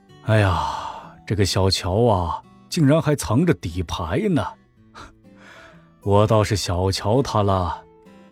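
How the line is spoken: Sighing, muttering to self. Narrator (Chinese): 梁德才叹了口气，自言自语道

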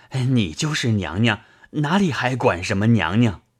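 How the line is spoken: Panting. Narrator (Chinese): 贾琏一面大动，一面喘吁吁答道

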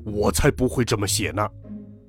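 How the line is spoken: Lion roaring. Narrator (Chinese): 狮子大吼

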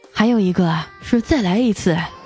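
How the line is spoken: Sighing. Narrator (Chinese): 我叹了口气说

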